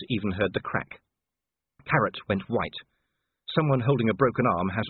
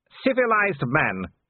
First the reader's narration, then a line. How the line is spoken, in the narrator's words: he shouted